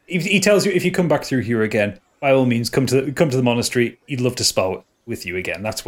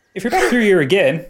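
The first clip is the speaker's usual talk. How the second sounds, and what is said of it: Put-on accent drifting into Irish. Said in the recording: “Oh, I've lost the accent. ... No, it's gone Irish.”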